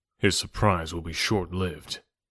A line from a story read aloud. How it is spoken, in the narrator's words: replied the ape man grimly, and there was that in his tone